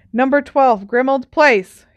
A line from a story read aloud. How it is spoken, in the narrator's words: Harry said loudly and clearly